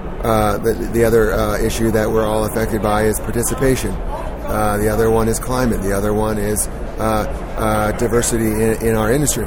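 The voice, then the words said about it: Strained, hoarse, fading voice. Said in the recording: “losing my voice”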